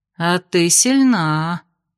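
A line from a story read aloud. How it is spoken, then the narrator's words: Appraising drawl. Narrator (Russian): протянула подошедшая Ада, оценивающая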